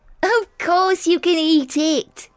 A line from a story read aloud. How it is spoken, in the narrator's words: laughed Billy